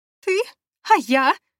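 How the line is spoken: Shouting. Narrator (Russian): закричала она

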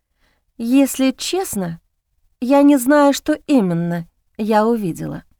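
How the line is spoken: Quiet. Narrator (Russian): тихо произнесла я

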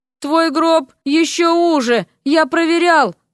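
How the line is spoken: Sleepy reply. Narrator (Russian): сонно отозвался княжич

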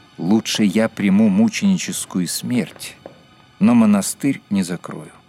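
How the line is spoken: Calm explanation. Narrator (Russian): он спокойно пояснил

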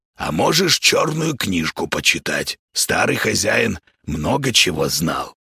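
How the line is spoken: Hoarse voice from behind. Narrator (Russian): услышал за спиной хриплое

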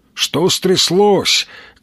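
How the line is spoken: Shouted. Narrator (Russian): крикнул

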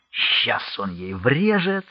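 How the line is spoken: Excited whisper. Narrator (Russian): с азартом болельщика прошептал фельдмаршал

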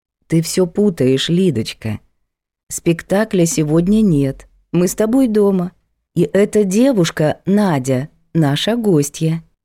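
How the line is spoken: Calm housekeeper. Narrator (Russian): Домработница же спокойно сказала

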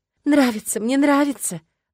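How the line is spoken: Breathless, sobbing. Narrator (Russian): выдохнула она всхлипнув

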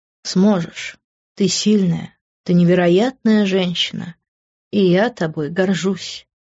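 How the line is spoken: Tender, affectionate. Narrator (Russian): ласково произнесла

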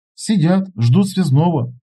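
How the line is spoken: Sighing reply. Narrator (Russian): вздохнув, ответила Ксения

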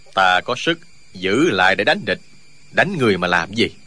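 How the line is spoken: Cold sneering laugh. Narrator (Vietnamese): Thuyết Bất Đắc cười nhạt nói

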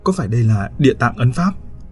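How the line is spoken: Trembling old voice. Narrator (Vietnamese): Ông Bảy trả lời bằng một cái giọng run run

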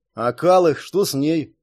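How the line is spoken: Upset grumble. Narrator (Russian): пробурчал Джерри, так же, как и Элмерик, явно расстроенный тем, что ему придется остаться внутри крепостных стен

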